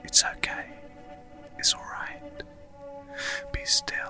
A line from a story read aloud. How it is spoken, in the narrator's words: she whispers to him gently